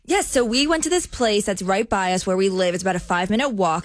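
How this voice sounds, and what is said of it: New Jersey accent. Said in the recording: “is from New Jersey, so you hear a lot of Jersey accent popping on the show.”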